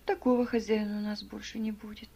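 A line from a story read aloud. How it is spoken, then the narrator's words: Dejected. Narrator (Russian): уныло продолжал Адольф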